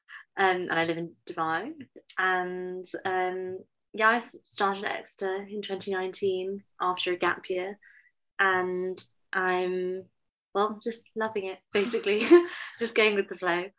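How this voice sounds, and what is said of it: British accent. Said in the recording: “sound so British”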